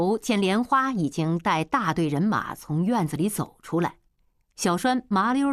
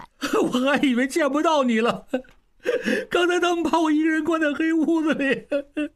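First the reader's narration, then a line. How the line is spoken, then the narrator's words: Bitter weeping. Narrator (Chinese): 痛哭起来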